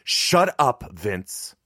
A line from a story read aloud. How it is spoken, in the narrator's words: Mom barked